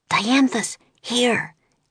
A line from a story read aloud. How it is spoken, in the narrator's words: Annie whispered